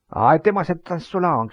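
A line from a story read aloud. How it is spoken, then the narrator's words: Village tyrant shouting. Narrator (French): cria le tyran du village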